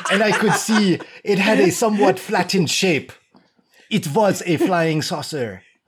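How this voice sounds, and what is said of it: Bad put-on German accent. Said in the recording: “the bad fucking French accent. No, it's not French. It's the bad German accent”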